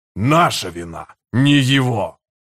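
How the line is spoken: Growled. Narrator (Russian): прорычал Харан-Аль

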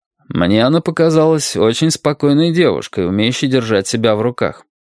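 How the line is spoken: Expressionless tone. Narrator (Russian): ничего не выражающим тоном сказал Мейсон

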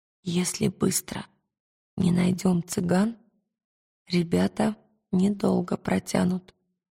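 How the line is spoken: Whisper. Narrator (Russian): шепнула она Пантелеймону

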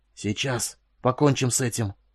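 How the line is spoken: Hoarse, crackling like glass. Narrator (Russian): Голос его был хриплым и хрустел, как стекло

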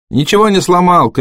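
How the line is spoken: Shouted. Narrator (Russian): крикнул пожарный

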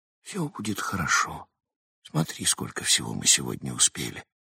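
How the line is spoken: Whispered. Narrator (Russian): прошептал

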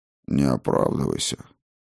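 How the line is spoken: Gentle. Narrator (Russian): мягко сказал господин Стайн

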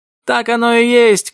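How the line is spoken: Shout. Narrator (Russian): крикнул Джим

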